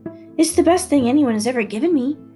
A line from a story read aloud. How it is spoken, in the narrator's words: I blurted out